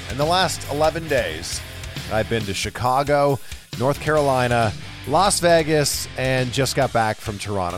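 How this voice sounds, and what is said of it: Voice sounds a little off. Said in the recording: “forgive my voice if it sounds a little off in this intro here. I think all the traveling has caught up to me.”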